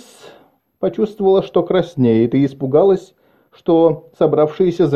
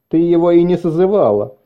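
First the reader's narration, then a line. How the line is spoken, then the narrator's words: Shout amid hall laughter. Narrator (Russian): крикнул кто-то, и в зале засмеялись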